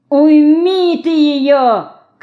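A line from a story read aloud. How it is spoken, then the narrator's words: Angry shouting woman. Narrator (Russian): кричала Леньке сердитая торговка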